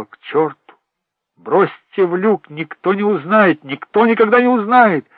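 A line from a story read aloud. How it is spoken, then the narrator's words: Loud. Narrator (Russian): ты громко сказал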